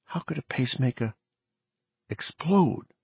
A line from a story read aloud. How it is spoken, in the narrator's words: Torgerson asked softly